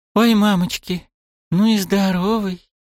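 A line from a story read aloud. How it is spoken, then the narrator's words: Sudden gasp into ear. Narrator (Russian): Неожиданно выдохнула мне чуть ли не прямо в ухо Сакура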